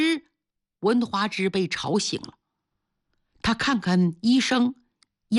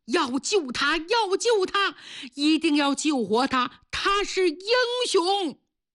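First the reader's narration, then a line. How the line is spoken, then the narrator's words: Policemen shouting. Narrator (Chinese): 警察们冲着医生喊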